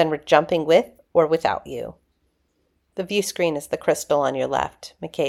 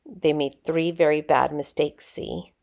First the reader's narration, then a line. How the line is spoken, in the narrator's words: McKay said, his voice low and cold